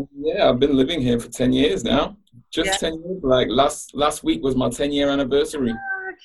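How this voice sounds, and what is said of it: Manchester English accent. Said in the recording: “clearly you have an accent... I'm from Manchester, England... It comes and it goes, though”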